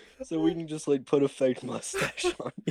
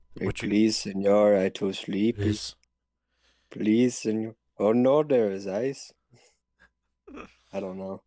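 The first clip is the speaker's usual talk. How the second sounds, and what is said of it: Sleepy put-on Mexican accent. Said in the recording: “I'm working on, like, a sleepy Mexican accent.”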